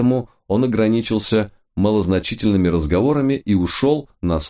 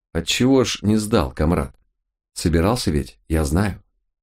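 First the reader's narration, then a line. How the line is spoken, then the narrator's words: Quiet question. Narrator (Russian): тот тихо спросил меня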